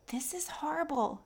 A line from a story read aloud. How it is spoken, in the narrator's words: gasped Peyton